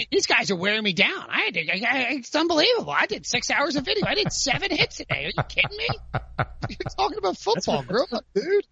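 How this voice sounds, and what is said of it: Complaining impression of another person's voice. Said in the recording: “Just do your Pete Prisco complaining. Just do your impression of him because it's a fantastic.”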